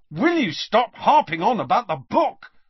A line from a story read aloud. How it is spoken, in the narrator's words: snapped Harry